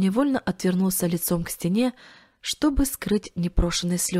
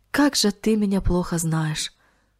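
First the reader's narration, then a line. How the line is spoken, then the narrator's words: Sigh. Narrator (Russian): вздохнул он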